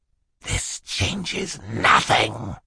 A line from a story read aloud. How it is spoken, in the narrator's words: he hissed at them